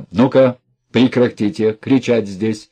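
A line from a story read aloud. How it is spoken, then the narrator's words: Stern. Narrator (Russian): сказал он строго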